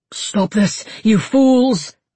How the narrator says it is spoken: Eivind panted

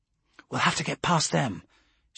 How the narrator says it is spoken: she whispered

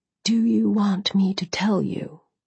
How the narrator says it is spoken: he asked, his voice quiet

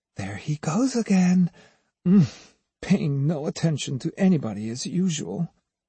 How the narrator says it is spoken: the girls whispered

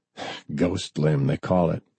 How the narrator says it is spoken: Forrest said with a chuckle

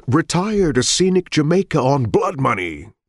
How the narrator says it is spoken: Richards cried

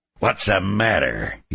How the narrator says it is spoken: he sneered

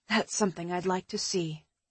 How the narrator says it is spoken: I murmured

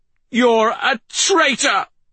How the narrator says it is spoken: He shouted

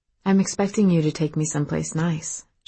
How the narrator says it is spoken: she said softly

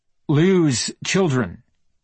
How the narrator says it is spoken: he'd said

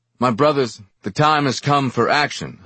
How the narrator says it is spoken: I shouted

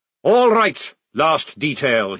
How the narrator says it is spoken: he bellowed

